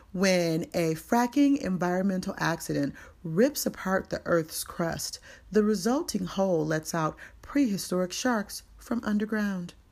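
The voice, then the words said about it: Announcer voice. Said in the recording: “do my announcer voice”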